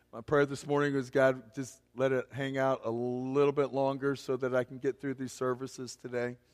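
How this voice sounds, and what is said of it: Strained, hoarse voice nearly gone. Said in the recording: “I'm on the verge of losing my voice. That's been happening for the past couple of days.”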